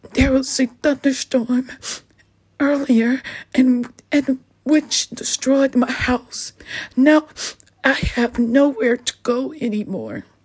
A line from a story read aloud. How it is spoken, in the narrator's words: The bunny sobbed and replied with tears in his eyes